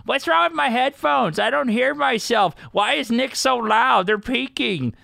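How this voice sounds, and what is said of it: Imitates a very old woman's voice. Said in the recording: “impersonating like a 95-year-old woman”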